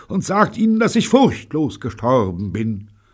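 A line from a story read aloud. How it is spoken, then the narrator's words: Shouting. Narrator (German): schrie sie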